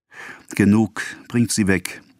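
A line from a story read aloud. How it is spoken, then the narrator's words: Sobbing shout. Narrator (German): rief Charles, der im Alkoven schluchzte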